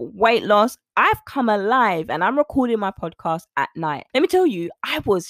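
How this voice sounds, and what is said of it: Usual voice. Nothing is said of it.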